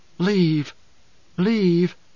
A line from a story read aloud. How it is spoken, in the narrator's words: whispering